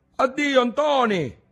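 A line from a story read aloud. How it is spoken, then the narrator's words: Shout mustering courage. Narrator (Italian): gli gridò dietro Alessi, facendosi coraggio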